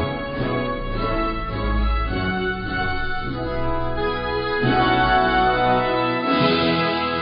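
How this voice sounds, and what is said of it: Usual voice. Nothing is said of it.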